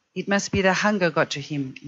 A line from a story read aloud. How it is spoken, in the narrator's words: Leon said